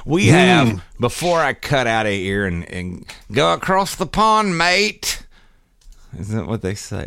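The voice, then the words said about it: Put-on Australian-sounding accent. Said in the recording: “Oh no, wrong accent. ... No, you're thinking about Australia.”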